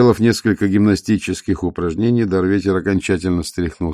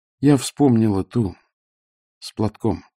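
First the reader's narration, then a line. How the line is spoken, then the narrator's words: Quiet reply. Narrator (Russian): тихо ответила Веда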